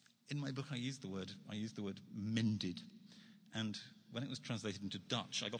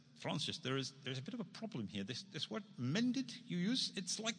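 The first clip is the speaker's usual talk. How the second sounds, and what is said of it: Deliberately bad Dutch accent. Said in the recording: “I'm going to do a really terrible Dutch accent”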